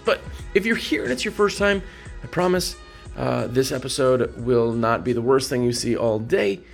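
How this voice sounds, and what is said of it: Hoarse, strained voice. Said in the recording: “my voice sounds awful. Just got back from IWCA and lost my voice”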